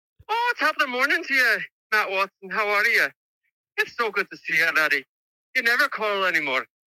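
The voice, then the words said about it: Put-on Scottish or Irish accent. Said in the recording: “give us your best British accent ... I'm pretty sure that's Scottish ... or Irish”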